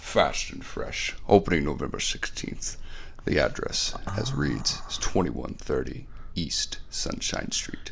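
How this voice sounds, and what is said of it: Old-timey British accent. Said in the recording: “your Cockney accent? It probably isn't Cockney. It's probably just not really Cockney ... Don't do the Ford guy. Just do the old timey.”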